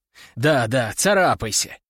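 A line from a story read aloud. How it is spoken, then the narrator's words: Grumbling. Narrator (Russian): пробурчал я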